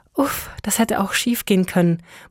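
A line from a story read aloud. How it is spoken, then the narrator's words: Muttered to herself. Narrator (German): murmelte sie vor sich hin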